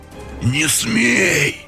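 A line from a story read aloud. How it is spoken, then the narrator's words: Hoarse wheeze. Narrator (Russian): Прохрипел уже священник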